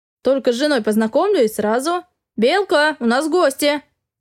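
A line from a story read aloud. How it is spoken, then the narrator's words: Loud unrestrained bark. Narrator (Russian): Гаркнул он, решив, что раз уж их сын проснулся, нечего себя сдерживать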